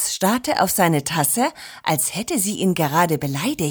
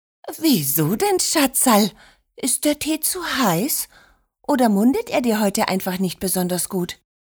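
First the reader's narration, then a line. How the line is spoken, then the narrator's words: Feigned innocent, angelic voice. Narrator (German): Oma tat völlig ahnungslos, unschuldig, meinte mit engelsgleicher Stimme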